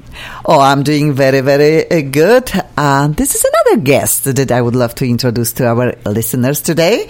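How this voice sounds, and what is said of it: Eastern European accent. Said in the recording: “I have an accent ... My accent is from Eastern Europe”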